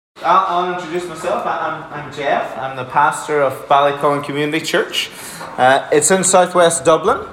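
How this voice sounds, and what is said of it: Irish Donegal accent. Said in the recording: “I'm originally from Donegal, if you're wondering what the accent is.”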